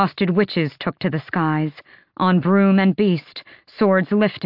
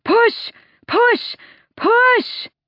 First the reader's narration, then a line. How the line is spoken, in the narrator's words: a white-haired queen bellowed